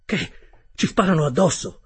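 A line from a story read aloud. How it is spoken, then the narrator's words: Exclaiming. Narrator (Italian): esclamai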